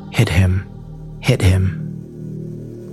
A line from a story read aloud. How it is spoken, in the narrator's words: a female voice softly saying